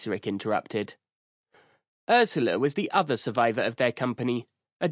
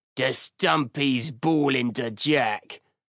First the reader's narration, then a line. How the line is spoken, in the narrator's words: Ratbag growled